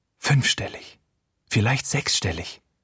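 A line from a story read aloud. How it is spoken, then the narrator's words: Whisper. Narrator (German): flüstert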